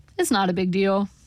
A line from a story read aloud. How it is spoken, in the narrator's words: he said